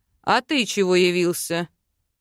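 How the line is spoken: Father's angry bark. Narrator (Russian): рыкнул папа

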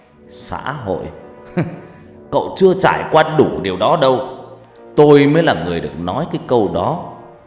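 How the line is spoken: Speech after loud laugh. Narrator (Vietnamese): Ông Kiên Nát cười lớn, rồi ông ta nói

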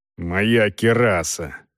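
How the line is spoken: Angry. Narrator (Russian): ответил Волков зло

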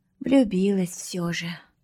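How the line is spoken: Young girl sighing. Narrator (Russian): вздохнула девчушка

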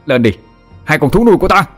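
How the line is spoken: Loud shout. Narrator (Vietnamese): Thằng Vinh hét to

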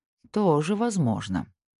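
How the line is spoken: Muttered. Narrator (Russian): пробормотал Снейдер

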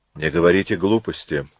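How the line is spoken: Dry. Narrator (Russian): сухо сказал он

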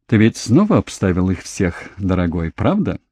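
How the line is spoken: Passionate, laughing. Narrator (Russian): смеясь, страстно

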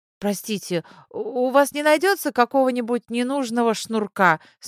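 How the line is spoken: Embarrassed babbling. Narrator (Russian): смущенно пролепетала Зойка

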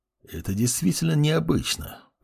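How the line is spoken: Muttered. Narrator (Russian): пробормотал лич

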